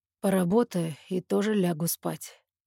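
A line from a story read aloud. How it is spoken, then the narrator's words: Quiet reply. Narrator (Russian): тихо отзывается он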